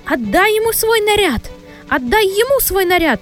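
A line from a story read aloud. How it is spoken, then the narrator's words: Hysterical screaming. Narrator (Russian): истерически кричала де Кайтрайт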